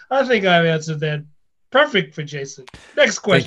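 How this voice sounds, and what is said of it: Imitates another person's voice. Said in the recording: “I like how you did the voice... I'm a better you than you.”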